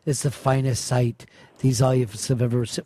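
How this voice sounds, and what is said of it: Put-on Irish accent. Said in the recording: “brought up a accent that sounded like it was Irish ... When did you turn Irish during this?”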